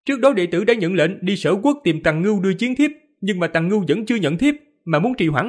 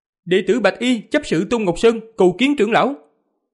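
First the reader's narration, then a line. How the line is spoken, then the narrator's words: Young man, loud. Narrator (Vietnamese): Người thanh niên mặc đồ trắng lớn tiếng nói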